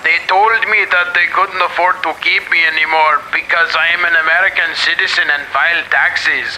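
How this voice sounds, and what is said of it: Put-on Mexican accent. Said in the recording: “You're just speaking in a Mexican accent.”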